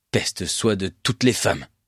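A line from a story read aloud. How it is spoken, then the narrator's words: Hissed through teeth. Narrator (French): siffla-t-il entre ses dents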